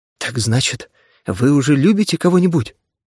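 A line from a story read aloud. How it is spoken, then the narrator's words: Trembling voice. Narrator (Russian): Дрожащим голосом спросила она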